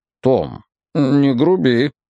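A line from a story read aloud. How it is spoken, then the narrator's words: Hesitant request. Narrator (Russian): неуверенно попросил дядя Поль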